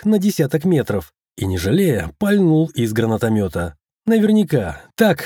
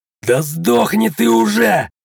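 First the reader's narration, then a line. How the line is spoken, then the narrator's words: Shout. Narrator (Russian): закричал СБшник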